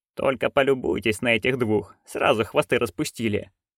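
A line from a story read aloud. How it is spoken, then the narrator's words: Grumbling under breath, mother. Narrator (Russian): проворчала про себя матушка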